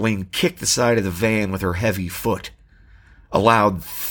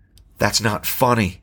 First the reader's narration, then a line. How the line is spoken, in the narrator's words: the woman said crossly